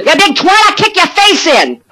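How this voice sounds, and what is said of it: New York tough-guy accent. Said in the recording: “Is he from New York? He sure sounds like it ... his tough guy accent”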